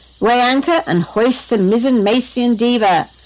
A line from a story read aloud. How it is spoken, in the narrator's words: shouted Jared